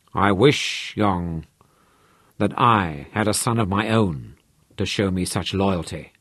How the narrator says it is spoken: rumbled softly

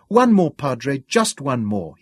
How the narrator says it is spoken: cried eagerly

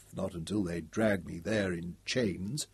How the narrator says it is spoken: he added under his breath

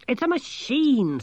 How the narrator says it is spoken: snapped Angelo

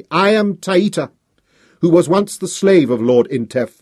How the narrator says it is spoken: I shouted

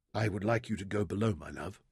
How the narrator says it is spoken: he told her quietly

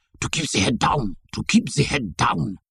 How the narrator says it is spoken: Benjamin, close beside me, whispered fiercely in my ear

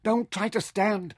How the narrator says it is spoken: Mintaka warned him frantically

